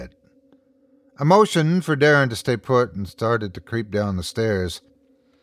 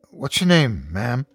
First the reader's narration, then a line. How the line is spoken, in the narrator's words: Darren asked calmly